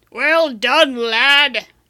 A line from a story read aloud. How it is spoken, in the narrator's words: Alistair boomed